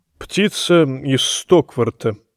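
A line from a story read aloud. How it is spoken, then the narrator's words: Awkward mumble. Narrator (Russian): промямлил Пиццель, чувствуя себя крайне неловко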